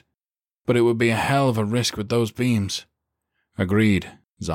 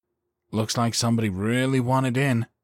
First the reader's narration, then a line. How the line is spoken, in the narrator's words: Calvin muttered